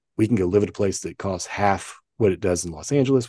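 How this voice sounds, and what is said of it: Southern US accent. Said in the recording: “I know you guys couldn't tell by my accent, you know, that I came from the South”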